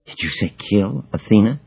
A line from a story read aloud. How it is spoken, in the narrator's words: she whispers, voice lower than at any time since we began speaking